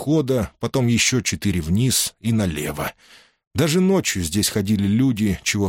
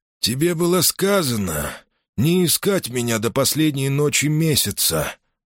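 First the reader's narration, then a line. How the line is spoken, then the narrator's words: Hoarse voice, close to ear. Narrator (Russian): раздался хриплый голос над самым ухом бывшего советника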